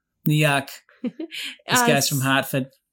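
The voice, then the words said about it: Bad put-on New England accent. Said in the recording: “That's my horrible New England accent.”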